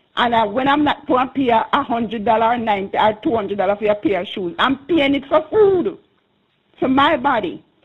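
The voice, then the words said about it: Passionate, emphatic speech. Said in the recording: “I can hear the passion in your voice.”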